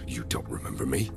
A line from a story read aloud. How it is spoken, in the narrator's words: He muttered